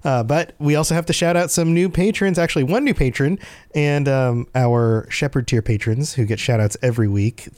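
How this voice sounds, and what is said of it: Sick, under-the-weather voice. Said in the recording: “you can probably tell by my voice still that I'm still a little under the weather. COVID decided to punch me in the face”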